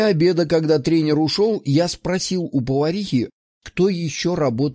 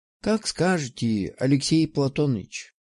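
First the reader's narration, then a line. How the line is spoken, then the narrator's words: Sigh. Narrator (Russian): вздохнула она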